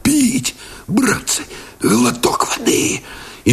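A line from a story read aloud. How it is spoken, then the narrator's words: Parched hoarse wheeze. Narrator (Russian): Парахонько кусая сухие, обметанные копотью губы, просипел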